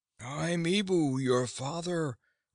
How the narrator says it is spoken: cried one soldier

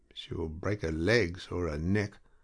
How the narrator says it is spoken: he muttered to himself soberly

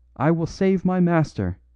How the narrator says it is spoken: he cried, his eyes blazing maniacally

